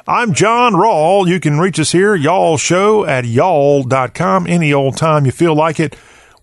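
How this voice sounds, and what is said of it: Southern American accent. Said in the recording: “we talk with a Southern accent on this day of the week and every other day”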